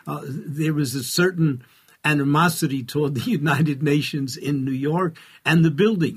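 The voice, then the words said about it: New York accent. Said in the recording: “as a New Yorker, as you can easily tell by my accent”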